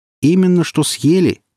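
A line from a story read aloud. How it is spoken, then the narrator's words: Passengers shouting. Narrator (Russian): крикнули пассажиры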